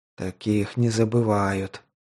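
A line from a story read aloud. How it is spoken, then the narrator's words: Whisper. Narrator (Russian): вновь прошептал Кациус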